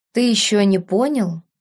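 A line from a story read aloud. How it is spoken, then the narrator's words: Sad. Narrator (Russian): грустно проговорил Ярвуд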